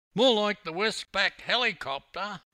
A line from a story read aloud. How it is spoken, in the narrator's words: yelled another swimmer, keen to get in on the ribbing and shyacking